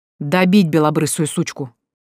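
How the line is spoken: Man barking. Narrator (Russian): рявкнул мужик

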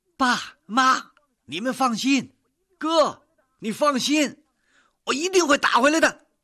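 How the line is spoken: Shouting. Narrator (Chinese): 涛涛 嘴里喊着

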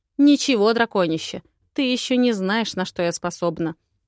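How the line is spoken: Snorted. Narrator (Russian): Фыркнула

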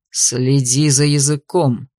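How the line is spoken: Growled. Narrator (Russian): прорычал Алластер

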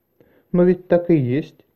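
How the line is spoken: Thin little voice. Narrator (Russian): тоненьким голоском сказала Барри

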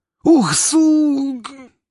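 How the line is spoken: Pained howl. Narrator (Russian): взвыл рейдер

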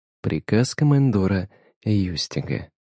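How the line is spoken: Melodic, commanding tone. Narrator (Russian): сказала она своим мелодичным голосом и таким тоном, как будто сама издала этот приказ

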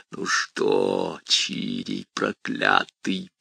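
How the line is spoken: Creaky imp voice. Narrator (Russian): проскрипел бес

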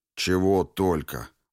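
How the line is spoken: Gloomy mutter. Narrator (Russian): мрачно буркнул Жадов

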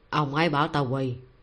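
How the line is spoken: Amused, low voice. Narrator (Vietnamese): Hoắc Lương buồn cười, nhỏ giọng nói

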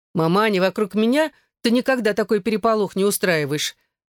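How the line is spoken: Mock-offended complaint, then laughing. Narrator (Russian): С притворной обидой пожаловалась Эшлинг и тут же рассмеялась

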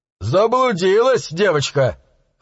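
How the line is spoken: Chuckling. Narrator (Russian): хохотнул

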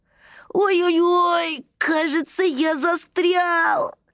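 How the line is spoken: Squeaky voice. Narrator (Russian): пропищал Тайми

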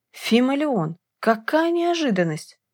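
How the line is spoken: Exclaiming. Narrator (Russian): воскликнул регент

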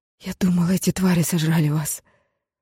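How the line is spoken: Muffled, breathless exhale. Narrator (Russian): выдохнула Грей, уткнувшись лицом ему в шею

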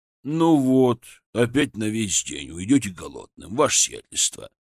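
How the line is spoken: Grumbled. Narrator (Russian): проворчал

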